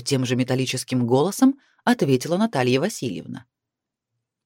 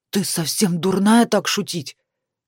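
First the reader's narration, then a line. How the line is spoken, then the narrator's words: Hiss. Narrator (Russian): зашипела на нее Лариса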